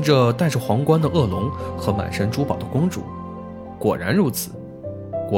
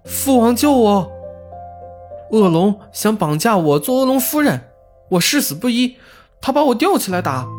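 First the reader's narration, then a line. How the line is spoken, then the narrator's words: Sudden shout. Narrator (Chinese): 公主 突然大喊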